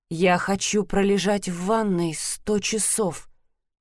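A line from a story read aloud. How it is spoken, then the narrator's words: Muttered. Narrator (Russian): пробормотала она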